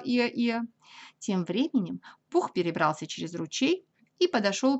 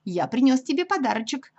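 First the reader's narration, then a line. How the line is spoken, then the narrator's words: Joyful. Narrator (Russian): продолжал Пух радостно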